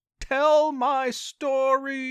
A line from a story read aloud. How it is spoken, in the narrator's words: Albert's terrifying scream